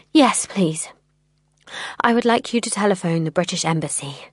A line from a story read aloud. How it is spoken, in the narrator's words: I said, forcing myself to speak calmly